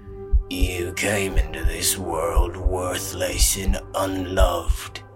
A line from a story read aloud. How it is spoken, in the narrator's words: growled in the gutter tongue